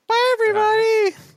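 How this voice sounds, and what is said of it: Super high-pitched voice. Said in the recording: “do you want to do like a super high voice? Like, bye, guys!”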